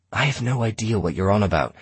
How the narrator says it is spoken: I hissed

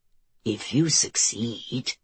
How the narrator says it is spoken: the Holy Father said softly

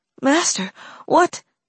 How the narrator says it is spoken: Valeria gasped out

